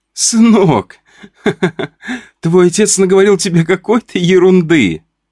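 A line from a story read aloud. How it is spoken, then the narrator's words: Laughing. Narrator (Russian): сказала мама сквозь смех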